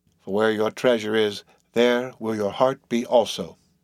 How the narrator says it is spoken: said Bildad, without lifting his eyes, and then went on mumbling

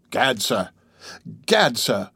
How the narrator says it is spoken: spluttered the Skookum bench king

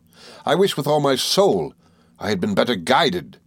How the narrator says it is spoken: he exclaimed

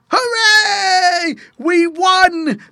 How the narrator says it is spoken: they shouted

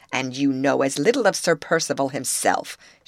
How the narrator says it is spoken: interposed sharply

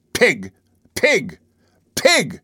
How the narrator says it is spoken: he was reiterating at the top of his lungs

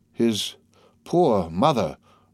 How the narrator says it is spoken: murmured the major

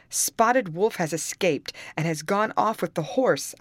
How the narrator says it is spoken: I cried out

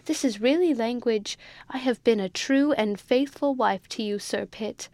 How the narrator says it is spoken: cried Sir Pitt, starting up

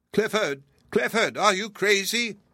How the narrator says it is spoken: cried

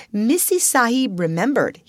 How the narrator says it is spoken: said

